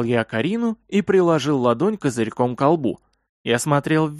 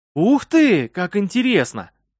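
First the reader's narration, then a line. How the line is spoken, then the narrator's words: Sudden exclamation. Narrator (Russian): вдруг воскликнула Карина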